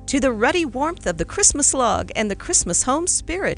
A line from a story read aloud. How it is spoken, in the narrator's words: cried